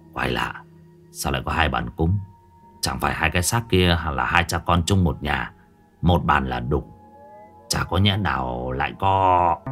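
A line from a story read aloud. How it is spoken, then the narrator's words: Muttered. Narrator (Vietnamese): lẩm bẩm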